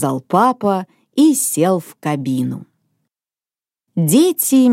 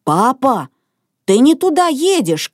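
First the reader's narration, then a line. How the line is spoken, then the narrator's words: Shouted. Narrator (Russian): крикнул в кабину Мартин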